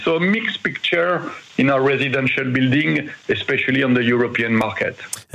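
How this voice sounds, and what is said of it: French accent in English. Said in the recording (Dutch): “Prachtig Frans accent.”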